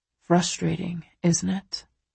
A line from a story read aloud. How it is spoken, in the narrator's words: He murmurs